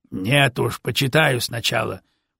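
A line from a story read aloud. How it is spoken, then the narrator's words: Grumble. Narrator (Russian): проворчал сотник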